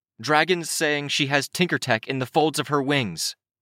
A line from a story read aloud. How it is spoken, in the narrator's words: I called out